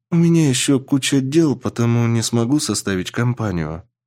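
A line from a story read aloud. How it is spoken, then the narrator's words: Sad. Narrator (Russian): грустно сказала Алис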